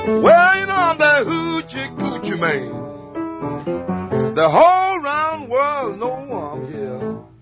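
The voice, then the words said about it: Hoarse singing voice. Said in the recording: “I didn't sound like a hoochie man. I'm hoarse.”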